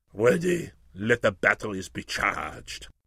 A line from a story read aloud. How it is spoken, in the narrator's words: He … said in a stern voice